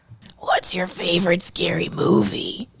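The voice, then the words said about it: Attempted Ghostface horror movie voice. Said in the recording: “do your ghost face ... that sounded lame ... it sounded like maybe you took a shot of bourbon”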